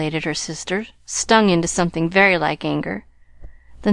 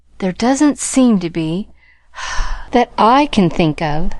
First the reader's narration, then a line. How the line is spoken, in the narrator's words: sighed Mrs